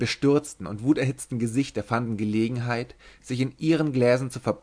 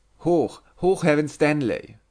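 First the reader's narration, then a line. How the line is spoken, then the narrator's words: Thunderous group shout. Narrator (German): donnerte um den Tisch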